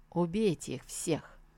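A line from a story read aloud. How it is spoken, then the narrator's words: Quiet command. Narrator (Russian): он негромко приказал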